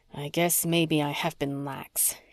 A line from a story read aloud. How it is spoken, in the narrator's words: he said softly